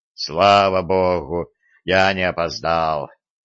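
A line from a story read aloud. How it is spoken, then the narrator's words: Relieved exhale. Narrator (Russian): облегченно выдохнул Виталик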